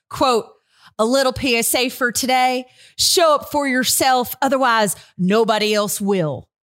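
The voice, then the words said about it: Attempted West Texas twang. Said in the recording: “Who do we know with a twang? And that was not her twang. ... West Texas darling”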